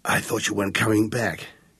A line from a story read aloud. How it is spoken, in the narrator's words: he croaked